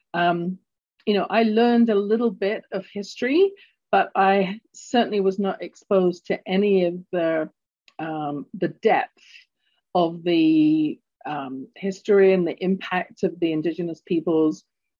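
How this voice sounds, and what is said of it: London English accent. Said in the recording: “you can tell from my accent, I was born in London, England.”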